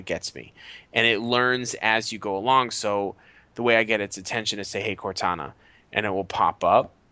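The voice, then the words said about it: Accented speech, talks fairly fast. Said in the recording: “my accent and I talk kind of fast”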